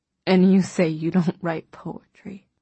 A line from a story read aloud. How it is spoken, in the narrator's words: Half-conscious, he glanced over at me and mumbled